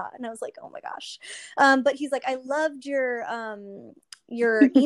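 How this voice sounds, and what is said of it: Usual voice. Nothing is said of it.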